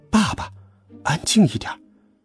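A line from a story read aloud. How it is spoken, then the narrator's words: Whispered. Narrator (Chinese): 我小声说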